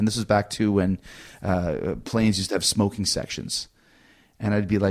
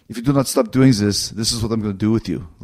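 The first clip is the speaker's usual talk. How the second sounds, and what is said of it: Bad Arnold Schwarzenegger impression. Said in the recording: “The worst Schwarzenegger imitation ever.”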